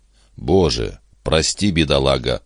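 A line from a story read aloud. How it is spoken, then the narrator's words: Muttering. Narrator (Russian): пробормотал Торгюсон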